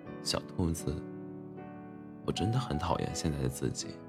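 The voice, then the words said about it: Quiet, slightly nasal tearful voice. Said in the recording (Chinese): “连说话都已经带了点鼻音 ... 很小声地说”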